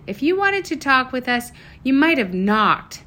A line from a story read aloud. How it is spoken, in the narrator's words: Sage screamed